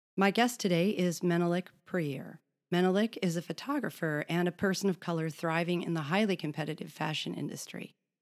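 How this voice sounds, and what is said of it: Rough, congested cold-affected voice. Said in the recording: “I apologize for my voice. I'm recovering from a bad cold”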